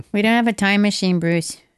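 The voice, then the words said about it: Fargo-style put-on voice. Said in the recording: “What was that voice? ... It's like Fargo or something.”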